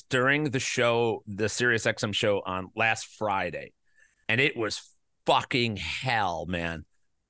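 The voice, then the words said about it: Hoarse, worn-out voice. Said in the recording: “my voice is crap ... My voice was crap. So if it goes out”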